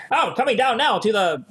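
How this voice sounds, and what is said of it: Old-timey transatlantic upper-class accent. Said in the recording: “That sort of transatlantic shit ... old timey like movies and like in the 20s and 30s or like radio shows ... That's a fake accent ... Sounding upper class”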